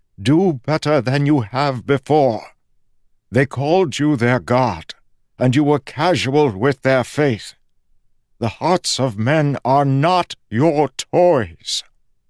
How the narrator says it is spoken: Preservation said, his voice strengthening

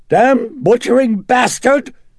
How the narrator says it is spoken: It shrieked in that hoarse, British-accented voice

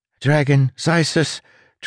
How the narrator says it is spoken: Tress said, her voice ragged

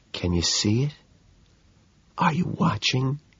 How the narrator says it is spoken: I whisper

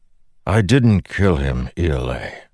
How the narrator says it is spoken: Dalinar said wearily

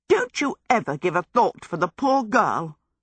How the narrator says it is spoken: snapped

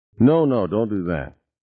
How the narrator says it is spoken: Norman said quickly

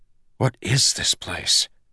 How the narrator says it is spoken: Kelsier hissed

